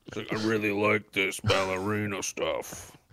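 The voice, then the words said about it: Duke Nukem impression. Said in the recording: “Great impression”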